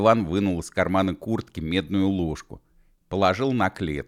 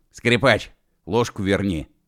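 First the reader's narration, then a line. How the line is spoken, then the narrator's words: Stern. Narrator (Russian): строго сказал Уэф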